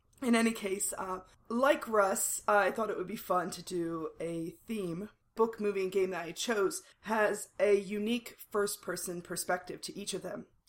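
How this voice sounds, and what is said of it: Hoarse, partly lost voice. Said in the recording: “I kind of lost my voice a little bit, so I sound horrible”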